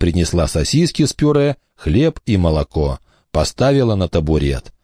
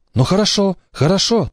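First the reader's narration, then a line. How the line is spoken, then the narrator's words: Hurried. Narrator (Russian): торопливо сказала мама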